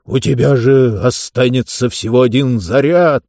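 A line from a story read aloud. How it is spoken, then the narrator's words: Moaning. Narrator (Russian): простонал он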